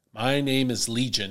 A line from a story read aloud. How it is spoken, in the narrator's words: he replied